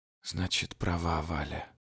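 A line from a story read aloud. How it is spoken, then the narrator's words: Mother's hoarse lifeless voice. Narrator (Russian): говорит вдруг мама сиплым безжизненным голосом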